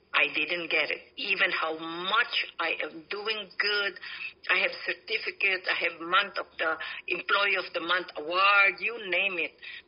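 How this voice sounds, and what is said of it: Slight non-native English accent. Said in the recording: “May accent ako konti”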